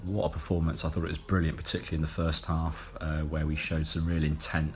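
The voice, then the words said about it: Slightly hoarse voice. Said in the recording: “I'm still a bit hoarse from yesterday.”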